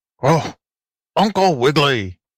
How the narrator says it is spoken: barked the ragged but polite tramp dog

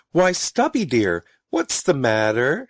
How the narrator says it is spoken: she called sweetly

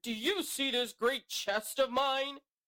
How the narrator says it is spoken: the mighty voice thundered

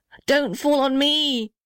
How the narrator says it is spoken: shrieked the little red house

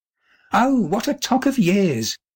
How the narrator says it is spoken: she exclaimed

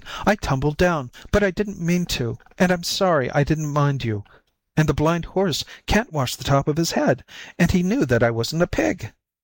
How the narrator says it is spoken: cried the white kitten

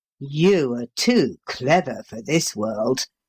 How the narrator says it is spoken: growled Paul

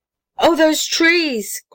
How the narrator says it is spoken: cried James White

